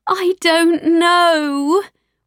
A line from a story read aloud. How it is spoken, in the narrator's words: wailed Mummy